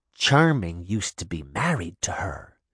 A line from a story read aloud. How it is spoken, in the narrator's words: Daphne whispered